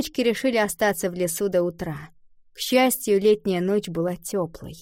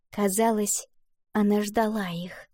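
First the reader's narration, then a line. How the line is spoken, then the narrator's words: Smiling whisper. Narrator (Russian): прошептала Валентина, улыбаясь Луне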